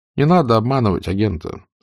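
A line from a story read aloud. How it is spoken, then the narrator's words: Sighing. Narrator (Russian): сказал Берг, вздохнув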